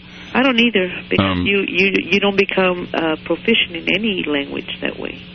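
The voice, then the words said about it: Accented English. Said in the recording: “You have an accent”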